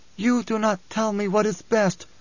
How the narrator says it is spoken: she rasped

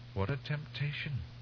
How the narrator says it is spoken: he muttered

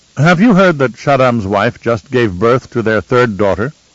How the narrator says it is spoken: Kylia snorted

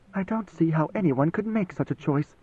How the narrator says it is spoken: she muttered

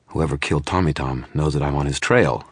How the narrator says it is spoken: I said

